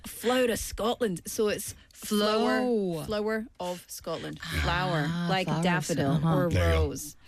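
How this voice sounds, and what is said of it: Scottish accent. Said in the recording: “my fellow Scottish countrymen and women ... That's my accent.”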